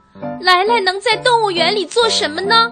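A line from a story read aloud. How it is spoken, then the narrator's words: Pained cry, woman. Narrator (Chinese): 温暖太太痛苦的叫道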